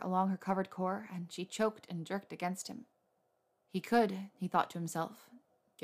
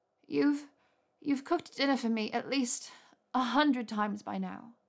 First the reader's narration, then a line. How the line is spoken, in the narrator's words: Hermione said in a breathy groan against his mouth